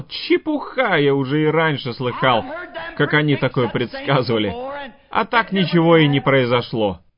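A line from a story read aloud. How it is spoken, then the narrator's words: Mocking, laughing. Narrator (Russian): посмеялся над ним и сказал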